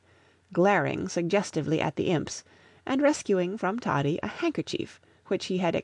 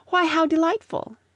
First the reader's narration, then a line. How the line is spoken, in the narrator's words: exclaimed Miss Mayton